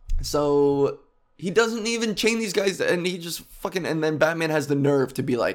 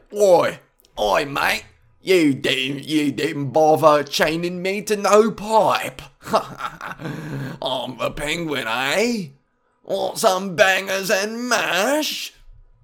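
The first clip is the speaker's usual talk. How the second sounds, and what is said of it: Put-on Cockney British accent. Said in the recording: “the Penguin in the games has a really sick Cockney British accent.”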